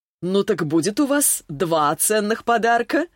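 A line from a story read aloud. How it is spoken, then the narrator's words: Laughing. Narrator (Russian): засмеялась Рязанова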